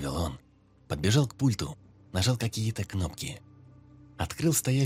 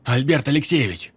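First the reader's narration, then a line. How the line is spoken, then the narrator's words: Shouting in someone's face. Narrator (Russian): Прокричал он в лицо ошеломленному директору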